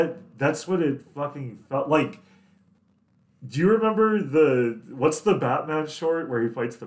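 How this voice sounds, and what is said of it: Usual voice. Nothing is said of it.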